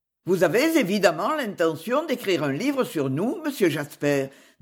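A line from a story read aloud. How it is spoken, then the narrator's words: Plain. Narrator (French): dit le doyen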